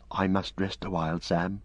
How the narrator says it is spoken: whispered Frodo

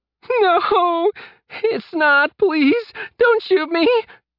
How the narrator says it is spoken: Mark sobbed

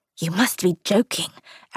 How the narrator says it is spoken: Aaron whispered

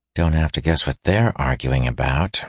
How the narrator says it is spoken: murmured Aaron

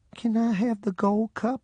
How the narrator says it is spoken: in a bashful voice, she asked

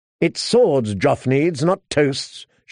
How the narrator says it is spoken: she snapped

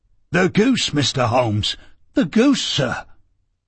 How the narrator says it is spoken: he gasped

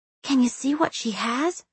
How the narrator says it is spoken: Petra whispered

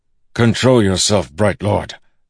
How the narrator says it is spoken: Dalinar said sternly

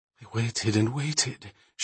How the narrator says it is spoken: she breathed finally

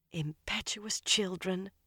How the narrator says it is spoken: Varen sighed

